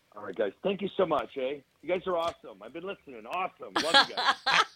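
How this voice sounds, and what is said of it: Canadian accent. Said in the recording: “I love the Canadian accent.”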